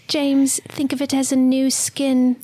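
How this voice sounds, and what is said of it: Weak put-on British accent. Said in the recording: “Should we do Mia Goth's voice? ... my British accent is like not very good anymore”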